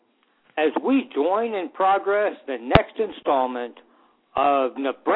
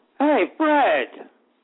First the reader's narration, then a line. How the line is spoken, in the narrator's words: Amelia shouts from the back room